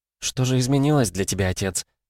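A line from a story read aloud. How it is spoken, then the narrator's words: Quiet question. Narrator (Russian): тихо спросила царевна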